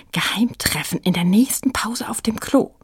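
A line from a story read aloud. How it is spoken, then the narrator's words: Whispering. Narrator (German): flüsterte sie Frieda zu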